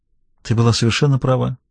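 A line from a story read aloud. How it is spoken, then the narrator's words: Quiet. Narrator (Russian): тихо произнес он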